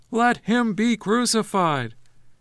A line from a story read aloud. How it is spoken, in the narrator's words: they began to shout even louder, saying